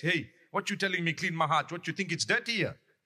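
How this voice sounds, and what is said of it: Put-on Durban accent. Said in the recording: “Typical Durban ... It's just a matter of accent.”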